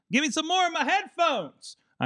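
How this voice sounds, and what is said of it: Yelling. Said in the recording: “I'm yelling at”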